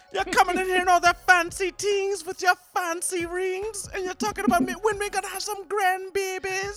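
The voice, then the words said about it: Put-on Jamaican accent. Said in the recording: “If your grandmother's Jamaican, man, we want it. ... My Jamaican accent”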